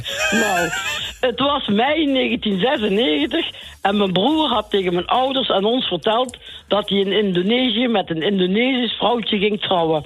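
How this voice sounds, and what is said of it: Slight sing-song regional accent. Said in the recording (Dutch): “Ik hoor een beetje toch een zingend accent.”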